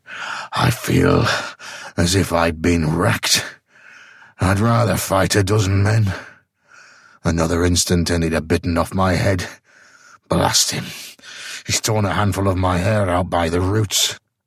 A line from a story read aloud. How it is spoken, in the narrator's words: he panted